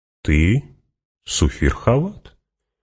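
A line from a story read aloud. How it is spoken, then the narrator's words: Calm reminder. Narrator (Russian): спокойно напомнил Фриман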